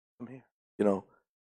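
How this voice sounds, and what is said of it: Sultry, seductive low voice. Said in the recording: “like a bedroom voice.”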